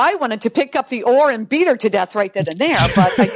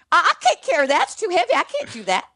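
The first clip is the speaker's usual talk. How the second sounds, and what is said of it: Impersonation of another person. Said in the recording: “great impersonation”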